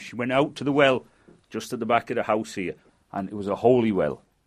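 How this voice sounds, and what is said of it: Manchester English accent. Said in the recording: “Is your accent a Lancashire accent? ... Not really, no. ... It's from Manchester”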